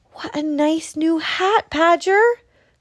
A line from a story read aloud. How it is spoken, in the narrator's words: cried Little Hedgehog